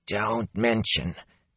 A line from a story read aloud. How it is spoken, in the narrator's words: His voice dropped into a hoarse whisper